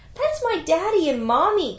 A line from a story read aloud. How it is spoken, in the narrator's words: cried the chick